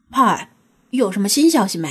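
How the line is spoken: Low-voiced question. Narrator (Chinese): 低声问道

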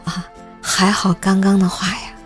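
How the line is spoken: Amazed exclamation. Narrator (Chinese): 我一脸惊奇地感叹道

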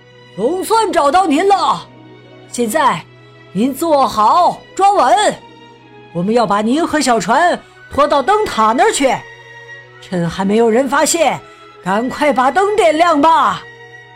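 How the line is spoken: Shouting. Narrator (Chinese): 海岸巡逻员朝他喊道

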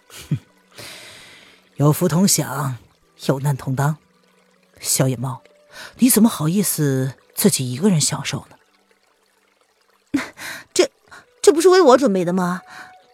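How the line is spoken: Soft laughing voice. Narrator (Chinese): 轻声笑着说

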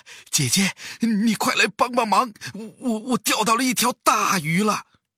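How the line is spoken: Breathless. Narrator (Chinese): 猫弟弟喘着气说

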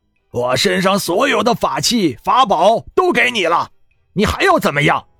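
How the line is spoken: Shouting. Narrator (Chinese): 天宇喊道

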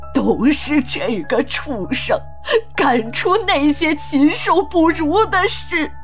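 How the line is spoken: Old man's agitated crying curse. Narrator (Chinese): 老人的表情突然变得很激动，对着孙老的干尸哭骂着

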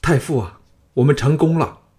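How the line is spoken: Loud, excited babble. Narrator (Chinese): 李斯等高声道贺，人人都有点胡言乱语

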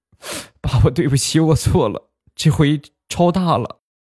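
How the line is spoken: Crying aggrieved child. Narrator (Chinese): 小侄子很是委屈，一边哭一边说

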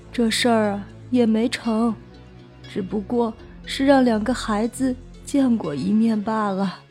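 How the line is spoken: Soft sigh. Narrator (Chinese): 那村妇轻轻的叹了口气，说道

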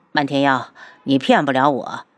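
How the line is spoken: Cold sneer. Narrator (Chinese): 无双 冷笑道

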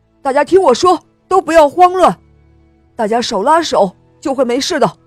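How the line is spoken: Shouting. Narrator (Chinese): 队长又喊道

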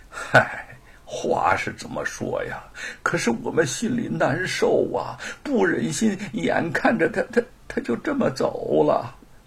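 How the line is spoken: Sighing. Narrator (Chinese): 那个歪嘴叹了口气说

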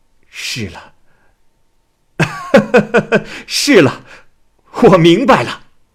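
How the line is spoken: Ecstatic frenzied shout. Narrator (Chinese): 岳仲忽然大喜，手舞足蹈的像发了狂一样，喊道

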